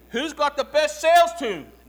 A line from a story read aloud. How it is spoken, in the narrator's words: They all shout back